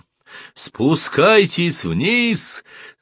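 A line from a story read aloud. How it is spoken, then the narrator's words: Captain shouting through megaphone. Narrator (Russian): закричал в свой рупор капитан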